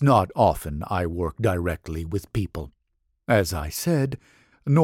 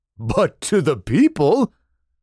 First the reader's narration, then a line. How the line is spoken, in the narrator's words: Daikokuten chuckled